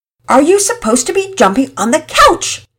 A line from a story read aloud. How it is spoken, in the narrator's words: Deanna yelled above the fray